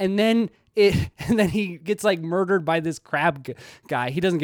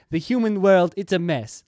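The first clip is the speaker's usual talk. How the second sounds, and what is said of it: Poor put-on Jamaican accent. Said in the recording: “That was a terrible Jamaican accent.”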